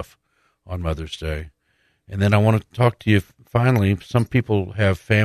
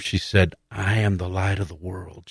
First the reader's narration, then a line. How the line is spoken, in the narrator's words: she whispered to him